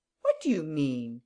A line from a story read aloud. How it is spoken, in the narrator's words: he said indignantly